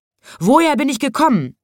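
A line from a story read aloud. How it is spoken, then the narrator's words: Lion shouting. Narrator (German): schrie da der Löwe seinem Gegenüber zu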